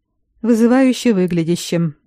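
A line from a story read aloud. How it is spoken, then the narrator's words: Gloomy. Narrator (Russian): мрачно перевел Грегор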